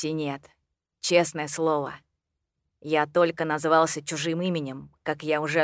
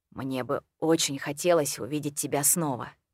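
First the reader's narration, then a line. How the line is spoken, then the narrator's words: Quiet. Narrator (Russian): сказал негромко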